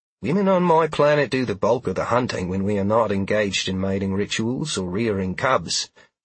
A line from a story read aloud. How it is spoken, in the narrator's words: Sheila said dryly